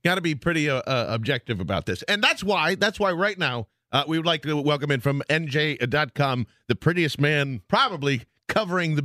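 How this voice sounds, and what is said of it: Smooth radio announcer voice. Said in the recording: “I was going to compliment your radio voice”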